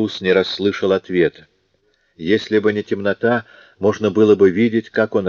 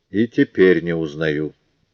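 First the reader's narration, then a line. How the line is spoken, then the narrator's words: Calm, quiet, steady voice. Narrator (Russian): сохранил обычную свою невозмутимость и ответил негромко, не дрогнувшим голосом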